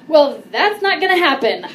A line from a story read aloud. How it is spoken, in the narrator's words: I yelled in the most defensive way